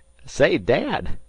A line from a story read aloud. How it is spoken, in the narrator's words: he shouted up the forecastle hatch